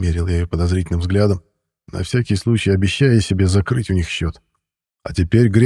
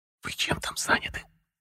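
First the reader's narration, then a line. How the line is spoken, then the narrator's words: Hissing from the bushes. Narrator (Russian): Зашипели из кустов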